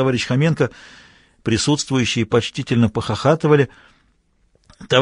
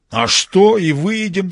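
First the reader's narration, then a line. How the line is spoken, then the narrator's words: Enthusiastic exclamation. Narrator (Russian): с воодушевлением воскликнул товарищ Хоменко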